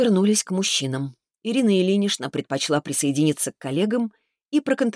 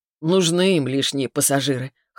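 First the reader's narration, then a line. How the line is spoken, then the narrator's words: Snort. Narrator (Russian): хмыкнул тот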